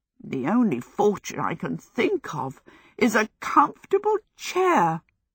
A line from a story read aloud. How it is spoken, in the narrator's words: she gasped